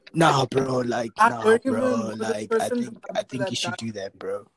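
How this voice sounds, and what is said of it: Imitates another person's voice. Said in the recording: “Is that your true impression?”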